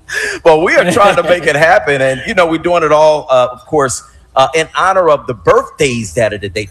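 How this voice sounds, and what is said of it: Radio announcer voice. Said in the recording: “I'm trying to get that Solomon voice. ... That's a real radio voice.”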